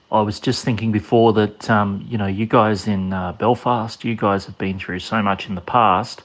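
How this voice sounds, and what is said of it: Australian accent. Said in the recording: “well, you'll hear the accent ... from down in Australia”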